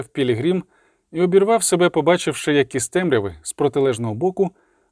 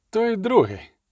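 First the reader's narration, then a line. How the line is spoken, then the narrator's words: Sharp interruption. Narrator (Ukrainian): різко перервав Бореас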